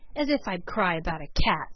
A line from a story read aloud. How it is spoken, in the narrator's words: scoffed Peter